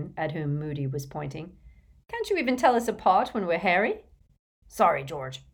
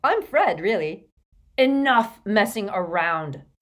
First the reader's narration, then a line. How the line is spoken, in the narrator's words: snarled Moody